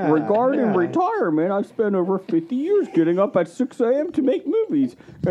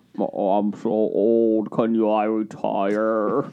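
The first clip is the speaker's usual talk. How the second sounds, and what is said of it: Imitates another person's voice. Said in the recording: “worst Michael Caine impersonation”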